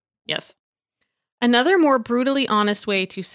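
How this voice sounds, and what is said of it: Usual voice. Nothing is said of it.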